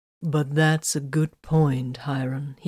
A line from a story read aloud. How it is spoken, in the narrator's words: he added smoothly